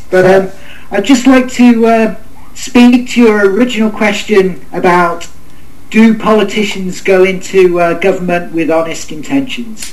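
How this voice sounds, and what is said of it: British accent. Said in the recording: “I am from the UK with this accent.”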